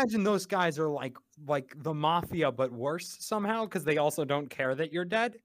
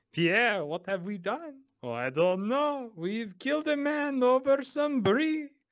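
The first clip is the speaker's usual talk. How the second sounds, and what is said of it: Put-on French accent. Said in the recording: “That's my French accent for the episode.”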